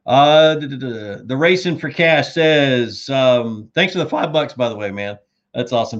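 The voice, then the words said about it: Hoarse, fading voice. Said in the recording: “I'm losing my voice. I'm trying not to, but I'm losing my voice.”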